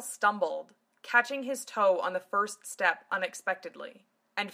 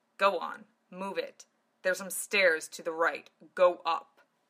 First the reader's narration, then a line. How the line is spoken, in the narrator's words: grumbled